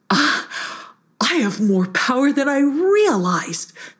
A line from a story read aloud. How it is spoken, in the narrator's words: laughed Hissyfit